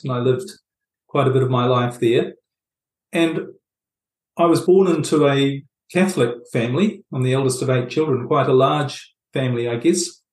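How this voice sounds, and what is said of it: New Zealand accent. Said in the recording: “I was brought up in New Zealand, as you might pick up from my accent”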